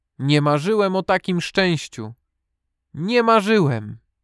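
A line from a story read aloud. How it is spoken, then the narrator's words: Joyful heartfelt call. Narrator (Polish): z głębi serca zawołał radośnie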